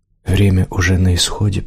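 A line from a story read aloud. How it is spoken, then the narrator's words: Whispered. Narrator (Russian): прошептала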